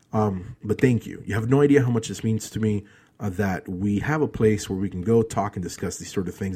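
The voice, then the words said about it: Emotional, strained speaking voice. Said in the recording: “I know that this is sounding a little bit emotional, and it's partly because of all the stress that I've been under the last 2 days”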